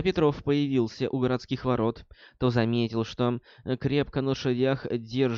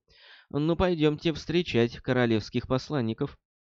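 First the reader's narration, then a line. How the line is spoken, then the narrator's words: Sighing. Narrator (Russian): Петров вздохнул и сказал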